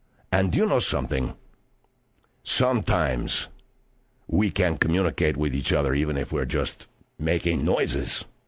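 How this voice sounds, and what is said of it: Spanish accent. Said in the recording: “I speak in a different language, not just the Spanish, you know, that's my accent”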